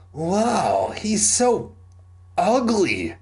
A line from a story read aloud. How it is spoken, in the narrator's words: Simon groaned